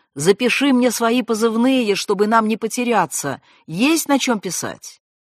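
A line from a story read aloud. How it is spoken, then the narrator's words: Shout. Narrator (Russian): крикнул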